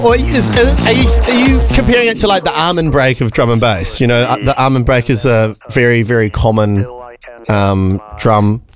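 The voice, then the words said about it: New Zealand accent. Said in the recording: “I'm pronouncing it with a Kiwi accent”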